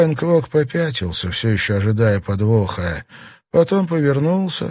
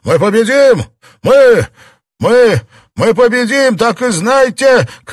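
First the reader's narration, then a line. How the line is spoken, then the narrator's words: Panting shout. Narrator (Russian): крикнул тяжело дыша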